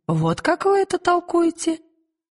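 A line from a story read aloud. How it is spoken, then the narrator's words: Uncertain, witch. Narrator (Russian): Впервые ведьма ответила неуверенно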